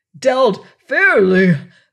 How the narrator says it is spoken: roared the infuriated captain

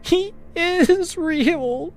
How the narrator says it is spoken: she sobbed

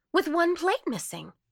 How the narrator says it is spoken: cried Martha Pym

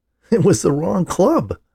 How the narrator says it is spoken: laughed Paul

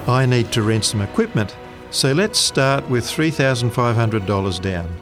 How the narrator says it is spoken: he said

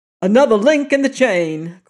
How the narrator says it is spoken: cried O'Malley

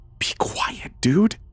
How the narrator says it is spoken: he whispered

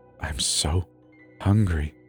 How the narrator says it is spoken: he whispered

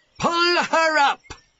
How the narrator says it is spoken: he shouted

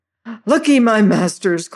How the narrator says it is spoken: cried the red-headed fellow, gasping and making a great to-do of gurgling

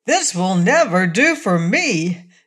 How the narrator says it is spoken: exclaimed the patchwork girl

